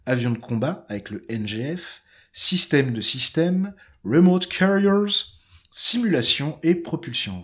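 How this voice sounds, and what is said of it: Put-on American accent on English words. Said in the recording (French): “j'adore mon accent américain. ... Écossais. C'est pas écossais”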